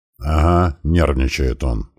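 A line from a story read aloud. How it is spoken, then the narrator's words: Grumbling mutter. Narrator (Russian): пробурчал герцог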